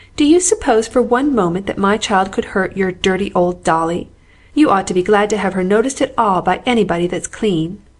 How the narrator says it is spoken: cried the outraged Amy

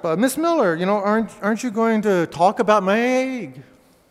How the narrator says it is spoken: Jeremy piped up

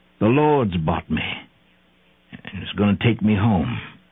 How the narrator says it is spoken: sighed

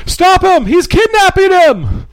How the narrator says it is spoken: shouts from behind

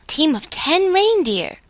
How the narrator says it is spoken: cried Claus, delightedly

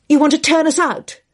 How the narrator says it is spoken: Dale cried

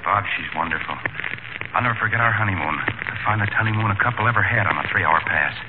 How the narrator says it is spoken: whispered

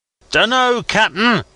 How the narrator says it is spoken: shouted back as loud as I could bawl

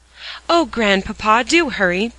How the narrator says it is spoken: begged Dick

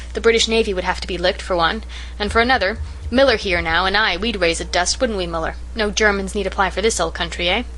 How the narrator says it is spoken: Harvey ran down the steps, laughing

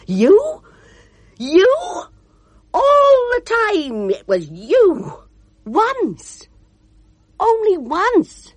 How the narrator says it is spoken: cried

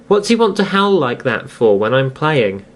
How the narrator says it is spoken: George would exclaim indignantly

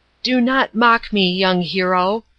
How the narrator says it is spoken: he cried

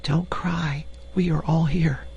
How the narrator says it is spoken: she whispered

